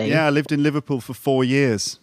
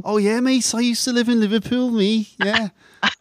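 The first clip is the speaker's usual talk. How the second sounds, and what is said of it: Put-on Scouse accent. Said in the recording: “I like to copy different accents from all over the place. ... Scouse accents”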